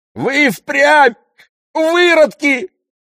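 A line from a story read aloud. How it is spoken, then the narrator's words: Yelling while spitting. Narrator (Russian): вопил он, отплевываясь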